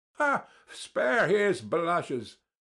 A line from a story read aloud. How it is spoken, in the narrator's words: cried Ferfitchkin, sniggering